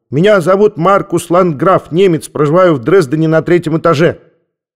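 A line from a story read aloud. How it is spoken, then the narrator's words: Child barking loudly. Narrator (Russian): Маленький Маркус гаркнул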